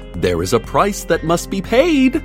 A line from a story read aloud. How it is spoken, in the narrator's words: she would scream and scream